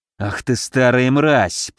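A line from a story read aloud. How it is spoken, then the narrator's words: Growled. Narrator (Russian): прорычал я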